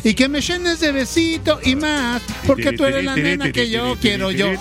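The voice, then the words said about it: Put-on Argentine Spanish accent. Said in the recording (Spanish): “es con acento argentino”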